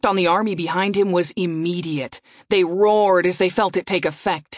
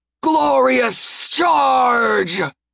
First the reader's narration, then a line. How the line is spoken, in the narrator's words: he shouted